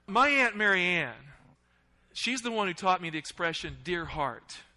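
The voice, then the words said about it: Slipping into a Southern accent. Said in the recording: “I'm actually slipping into a Southern accent as I'm thinking about it.”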